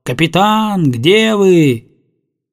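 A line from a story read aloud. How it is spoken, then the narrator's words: Shouting. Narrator (Russian): Летика кричал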